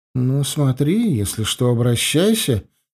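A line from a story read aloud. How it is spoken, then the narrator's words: Slightly hurt. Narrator (Russian): немного обиженным голосом сказала она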